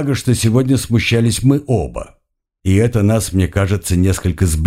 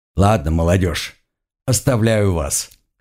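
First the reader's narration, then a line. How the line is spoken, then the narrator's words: Amused snort. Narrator (Russian): хмыкнул Халан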